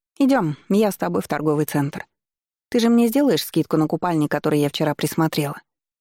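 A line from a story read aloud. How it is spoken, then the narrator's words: Plain. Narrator (Russian): спросила она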